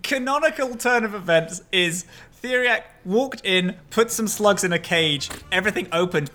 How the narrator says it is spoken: they yelled

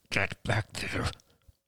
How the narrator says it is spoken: muttered Ian through clenched teeth

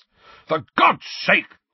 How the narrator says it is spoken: roared Uncle Vernon

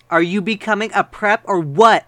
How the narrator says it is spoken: I shouted angrily

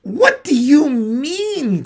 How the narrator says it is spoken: cried Lucy, turning very white

